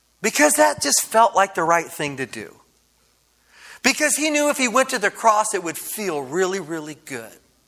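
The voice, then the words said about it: Sarcastic delivery. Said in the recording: “being sarcastic?”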